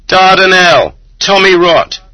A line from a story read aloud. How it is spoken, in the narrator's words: he would suddenly, for no obvious reason, shout at a crowd of Zeks